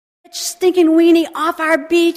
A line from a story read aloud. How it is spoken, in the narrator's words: a guy had shouted